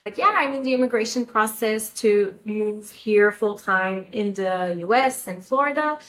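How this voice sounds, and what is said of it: French Canadian accent. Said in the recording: “I'm Canadian, and my first language is French, so I have an accent.”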